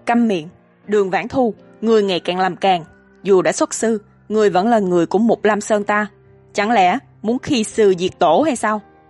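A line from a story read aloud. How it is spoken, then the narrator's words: Low growl. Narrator (Vietnamese): Đường Nghiêu gầm khẽ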